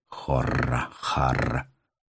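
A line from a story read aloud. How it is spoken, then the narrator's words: Muttered through teeth. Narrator (Russian): пробормотал сквозь зубы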